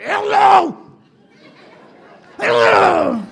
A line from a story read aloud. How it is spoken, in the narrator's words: I shouted